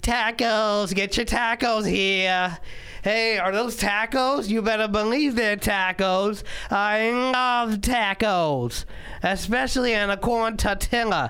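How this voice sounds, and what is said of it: Exaggerated carnival vendor accent. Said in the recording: “white Americans at carnivals where they make tacos, but then they have that accent ... I didn't do a good impression at all”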